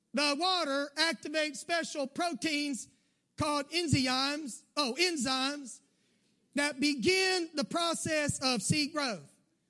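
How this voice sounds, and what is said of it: Southern American accent. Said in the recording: “we read it in a southern accent, which just comes naturally for me”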